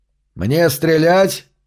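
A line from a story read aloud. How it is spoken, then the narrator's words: Shout. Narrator (Russian): крикнул Хити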